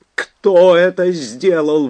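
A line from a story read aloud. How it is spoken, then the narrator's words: Shouted out. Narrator (Russian): выкрикнул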